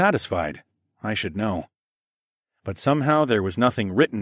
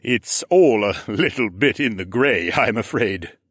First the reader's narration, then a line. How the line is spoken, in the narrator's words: Mech laughed in his rolling thunder way